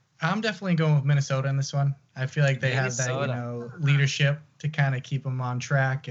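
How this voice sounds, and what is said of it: Slight Canadian-sounding accent. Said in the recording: “I'm hearing a little bit of like Canadian on the out and the abouts ... you just have that little accent? ... On the outs and the abouts. I hear that Canadian.”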